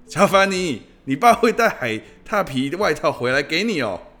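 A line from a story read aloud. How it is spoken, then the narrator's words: Shouted from behind. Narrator (Chinese): 贾奈利就从后方冲着他大喊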